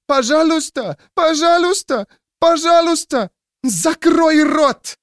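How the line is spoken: Shrieking woman. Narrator (Russian): взвизгнула женщина

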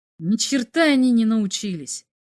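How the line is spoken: Exclaimed. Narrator (Russian): воскликнул Бато

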